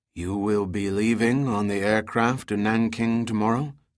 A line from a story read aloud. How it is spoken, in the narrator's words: Tsen Din asked